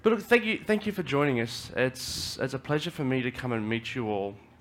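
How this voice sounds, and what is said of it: Australian accent. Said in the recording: “I speak Australian. So please, if I'm speaking too quickly, or I start speaking Australian”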